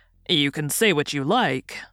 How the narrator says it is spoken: returned the sergeant, standing coolly

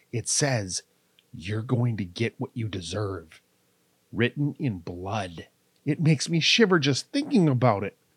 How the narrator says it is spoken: in a hushed voice added

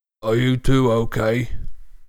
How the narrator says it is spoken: Goyle's low rasp of a voice issued from his mouth

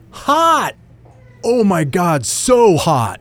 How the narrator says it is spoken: Chris yelled

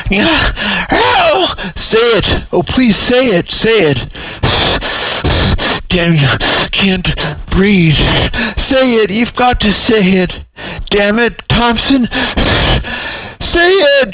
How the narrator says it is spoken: howled the desperate Reston, his teeth gritted

